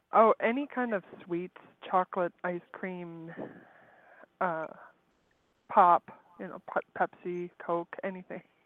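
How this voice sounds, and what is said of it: Canadian regional accent. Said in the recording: “you have the same accent as Jerry ... I'm calling from Canada ... it's an accent. It may be not an English accent, but it's an accent.”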